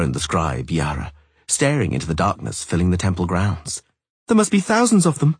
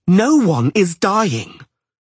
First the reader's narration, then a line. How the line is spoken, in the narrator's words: screamed the sorceress, paling in fury